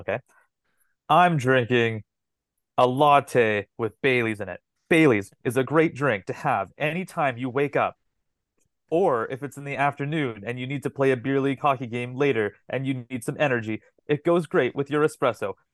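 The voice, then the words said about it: Imitates another person's voice. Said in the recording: “I'm gonna pull an Allan right here. I'm gonna do my best impression of Allan.”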